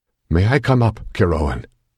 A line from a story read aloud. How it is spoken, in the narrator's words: His voice was shaky and strained